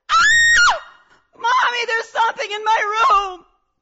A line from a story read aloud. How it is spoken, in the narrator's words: I screamed